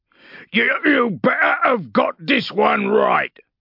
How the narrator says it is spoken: he snarled

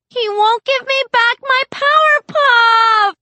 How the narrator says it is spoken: Glory shrieks, and she starts to cry

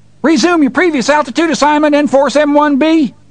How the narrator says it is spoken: Farmer John was screaming

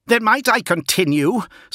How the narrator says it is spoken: snapped Fulgrim, still poised on the brink of hostility

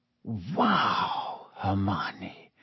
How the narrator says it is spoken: Harry whispered

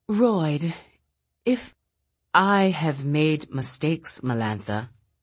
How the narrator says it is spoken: Royd said gravely

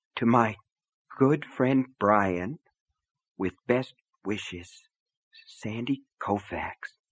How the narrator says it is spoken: Brian read in a hoarse whisper

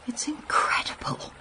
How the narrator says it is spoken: I breathed

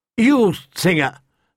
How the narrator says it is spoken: Sir Willis Woad called out

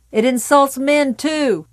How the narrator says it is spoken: George Dawson called back

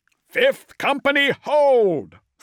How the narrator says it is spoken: Thane roared across the vox

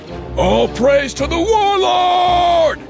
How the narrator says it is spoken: someone called

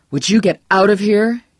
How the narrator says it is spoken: cried

